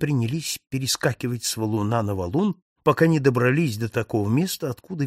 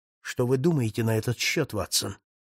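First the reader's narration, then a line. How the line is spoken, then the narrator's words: Whisper. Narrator (Russian): шепнул мне Холмс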